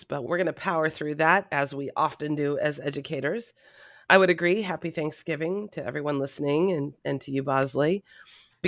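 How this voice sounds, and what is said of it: Sick-sounding voice. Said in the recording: “I'm a little bit under the weather, as you might be able to hear in my voice”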